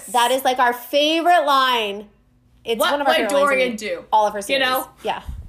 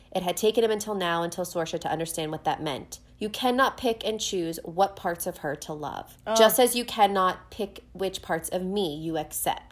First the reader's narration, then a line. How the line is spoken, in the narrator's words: Dorian said quietly